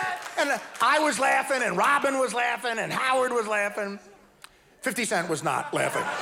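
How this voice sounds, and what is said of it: Usual voice. Nothing is said of it.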